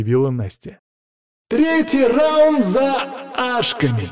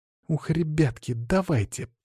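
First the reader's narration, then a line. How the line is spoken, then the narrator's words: Through gritted teeth. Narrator (Russian): процедила сквозь зубы Лена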